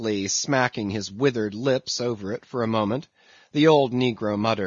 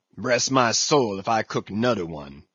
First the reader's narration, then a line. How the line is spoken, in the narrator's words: he growled, angrily